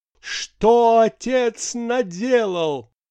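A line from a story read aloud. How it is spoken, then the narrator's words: Theatrical shout. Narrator (Russian): сказалась все-таки актерская природа, прокричала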